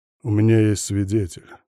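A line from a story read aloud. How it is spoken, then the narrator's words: Grim statement. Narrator (Russian): мрачно сообщил я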